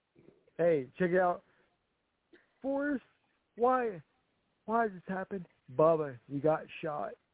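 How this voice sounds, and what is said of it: Forrest Gump character impression. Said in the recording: “the greatest Forrest Gump impression of all time”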